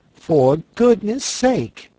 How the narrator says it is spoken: she exclaimed on seeing the Frogman

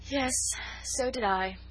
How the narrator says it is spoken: she said with a sigh

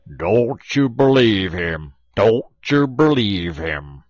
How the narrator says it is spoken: Brer Bullfrog, he holler back

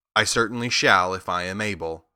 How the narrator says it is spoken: the Scarecrow replied

